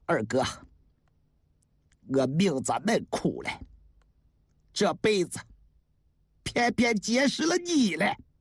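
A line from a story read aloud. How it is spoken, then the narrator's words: Sighing. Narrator (Chinese): 叹了口气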